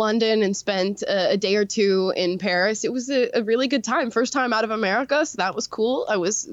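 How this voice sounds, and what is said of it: Usual voice. Nothing is said of it.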